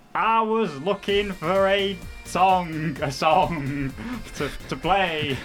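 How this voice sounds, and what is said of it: Scottish accent. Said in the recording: “was that your best Scottish accent?”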